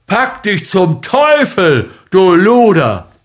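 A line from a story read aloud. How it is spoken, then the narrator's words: Roaring. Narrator (German): brüllte ihm Mugujew an, stampfte mit den Füßen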